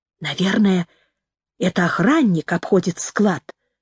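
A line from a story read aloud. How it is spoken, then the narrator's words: Whisper. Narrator (Russian): прошептала Джорджи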